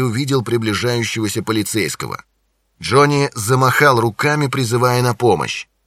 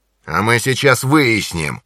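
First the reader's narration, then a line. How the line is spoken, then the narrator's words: Growling. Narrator (Russian): прорычал англичанин Джонни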